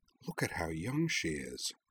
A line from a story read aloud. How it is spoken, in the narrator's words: Rory murmured